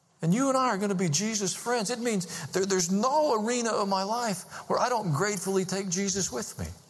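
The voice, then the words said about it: Hillbilly accent. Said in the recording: “my hillbilly accent”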